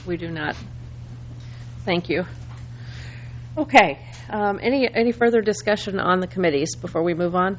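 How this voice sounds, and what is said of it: Strained, failing voice. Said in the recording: “I think I'm losing my voice”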